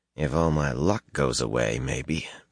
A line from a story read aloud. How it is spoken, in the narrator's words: Matt muttered